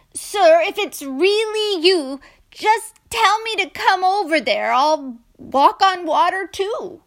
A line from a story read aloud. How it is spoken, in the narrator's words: Peter yelled out from the boat